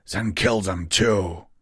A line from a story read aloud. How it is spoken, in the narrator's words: Narrowlux snarled